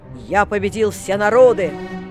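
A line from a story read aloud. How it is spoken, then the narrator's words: Hissing shout. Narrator (Russian): Наполеон крикнул шипящим голосом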